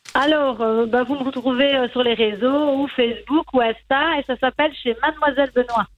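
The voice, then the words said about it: Sing-song Liège Belgian French accent. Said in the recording (French): “Dans la région liégeoise ... on entend, le petit accent chantant”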